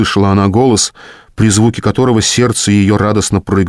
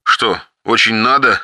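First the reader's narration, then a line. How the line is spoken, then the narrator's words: Hoarse chuckle over phone. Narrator (Russian): хрипло усмехнулась в ответ трубка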